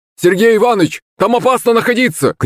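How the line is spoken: Shout. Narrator (Russian): крикнул мне прораб

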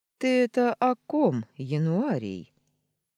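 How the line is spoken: Lazy question. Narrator (Russian): лениво поинтересовался Устин

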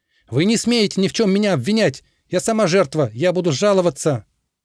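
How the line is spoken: Shouting. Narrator (Russian): Она еще что-то кричала им в спины

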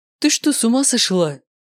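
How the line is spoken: Startled exclamation. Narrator (Russian): воскликнул я, когда самоходка резко с громким свистом затормозила прямо передо мной

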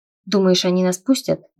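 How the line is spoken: Skeptical snort. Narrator (Russian): недоверчиво хмыкнул Вейлор

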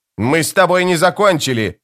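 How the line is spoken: Yelling. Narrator (Russian): заорал Ленестро

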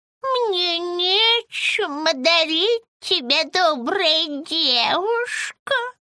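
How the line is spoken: Old woman's toothless mumble. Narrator (Russian): прошамкала старуха

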